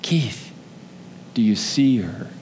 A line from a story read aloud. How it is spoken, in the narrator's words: Jesus whispered again